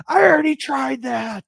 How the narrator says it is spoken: Luke yells

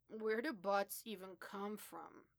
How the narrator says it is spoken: his slurred

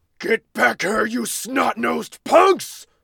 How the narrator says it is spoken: The mighty Yenna's booming bay erupted from the cave mouth

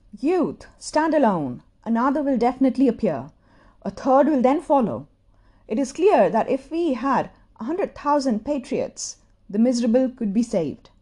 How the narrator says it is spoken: Toda had cried

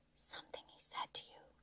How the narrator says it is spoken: whispered, barely louder than a breath and close to his ear

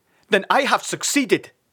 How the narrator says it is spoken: shouted Father triumphantly

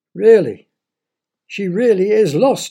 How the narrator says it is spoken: he cried

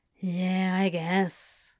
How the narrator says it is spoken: mumbled

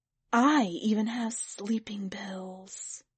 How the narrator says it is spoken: somebody else whispered

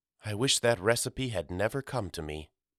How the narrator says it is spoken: murmured Mama

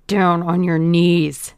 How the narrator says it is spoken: growled the man

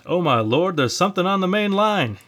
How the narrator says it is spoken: he yelled to Jones

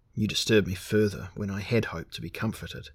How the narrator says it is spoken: he sighed

